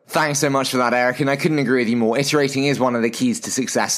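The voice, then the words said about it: British accent. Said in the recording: “my dulcet British accent”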